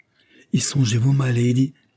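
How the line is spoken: Exclaiming. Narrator (French): s'écria Suzanne

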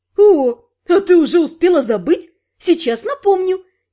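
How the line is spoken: Cheerful teasing. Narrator (Russian): весело сообщила моя любимая головная боль

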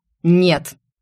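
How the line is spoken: Very stern. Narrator (Russian): Голос Эрго прозвучал весьма строго

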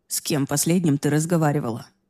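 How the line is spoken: Gentle question. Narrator (Russian): мягко спросил он

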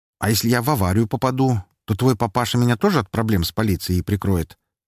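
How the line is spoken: Cheerful casual question. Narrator (Russian): спросил я веселым, почти что будничным тоном

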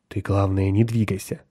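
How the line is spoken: Quiet warning. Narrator (Russian): тихо предупредил Кертис

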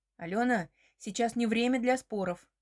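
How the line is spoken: Rude interruption. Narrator (Russian): перебивает грубо

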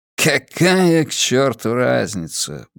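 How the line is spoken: Muttering again. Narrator (Russian): бормочет он снова

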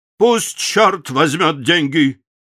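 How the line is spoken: Shouted reply. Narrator (Russian): поляк полковнику крикнул в ответ

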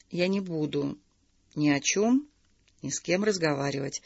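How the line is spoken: Quiet, deliberate, measured. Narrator (Russian): тихо и раздельно произнесла Наталья

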